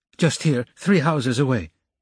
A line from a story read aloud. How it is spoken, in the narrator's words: he said eagerly